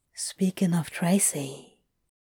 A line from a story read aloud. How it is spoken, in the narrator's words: Crowley whispered into the dark